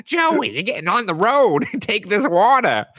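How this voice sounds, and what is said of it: Imitated mom voice. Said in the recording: “this is just my mom voice ... that sounds nothing like her”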